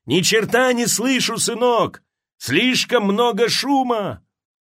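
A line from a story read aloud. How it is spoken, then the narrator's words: Shouting back. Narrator (Russian): Патрони крикнул в ответ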